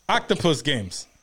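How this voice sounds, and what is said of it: Put-on Ukrainian accent. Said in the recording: “We're gonna give him a Ukrainian accent.”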